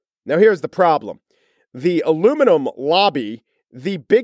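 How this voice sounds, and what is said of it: Usual voice. Nothing is said of it.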